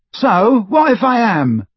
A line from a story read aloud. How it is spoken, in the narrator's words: said Neville loudly